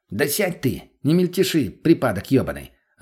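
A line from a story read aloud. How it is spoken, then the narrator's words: Snapping. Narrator (Russian): огрызнулся мутный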